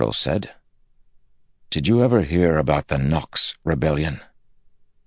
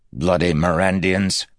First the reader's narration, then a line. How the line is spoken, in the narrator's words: Candler spat